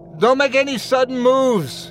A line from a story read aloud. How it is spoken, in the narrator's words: I shouted